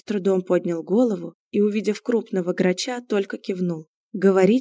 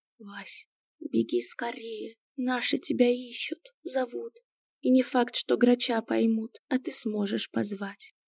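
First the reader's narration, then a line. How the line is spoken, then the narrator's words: Quiet. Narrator (Russian): тихо сказал Миун Василине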